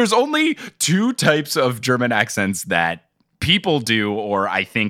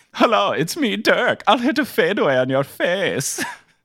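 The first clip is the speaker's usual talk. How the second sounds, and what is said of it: Put-on relaxed German accent. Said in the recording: “do a Dirk impression ... chill German guy”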